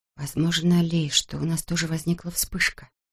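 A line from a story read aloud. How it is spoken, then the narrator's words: Quiet. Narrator (Russian): тихо проговорила она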